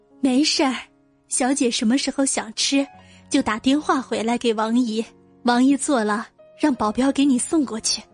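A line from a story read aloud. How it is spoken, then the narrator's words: Delighted, quick reply. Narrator (Chinese): 王姨听到徐萱萱夸她做的面包好吃，笑得嘴都合不拢，赶紧接了一句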